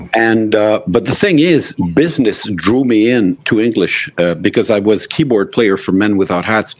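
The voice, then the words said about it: French Canadian accent. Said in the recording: “you can tell by my accent that I'm Francophone. I'm not an Anglophone.”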